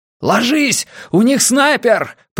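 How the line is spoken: Shouted. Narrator (Russian): прокричал Густав

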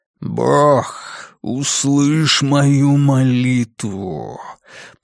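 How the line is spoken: Growling. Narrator (Russian): произнес Лестер рычащим

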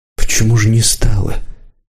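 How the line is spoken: Quiet question. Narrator (Russian): тихо спросил Рысюк

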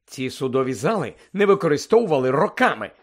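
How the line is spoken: Angry. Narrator (Ukrainian): сердито сказав містер Уізлі

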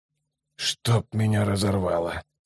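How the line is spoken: Muttered. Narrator (Russian): пробормотал Ном

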